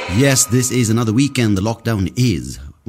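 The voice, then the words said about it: News reporter style delivery. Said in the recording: “Why am I sounding like a news reporter?”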